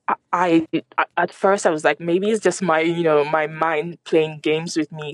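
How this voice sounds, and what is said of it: French accent. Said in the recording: “people may have gathered that you're French from your accent.”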